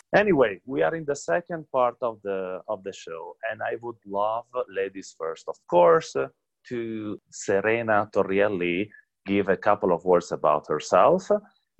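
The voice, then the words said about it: Strong Italian accent. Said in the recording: “had a terrible Italian accent. It would be a huge fight to understand who has the worst one”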